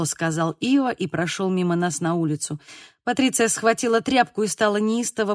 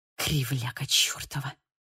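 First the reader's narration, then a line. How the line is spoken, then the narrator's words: Muttering. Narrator (Russian): пробормотала Патриция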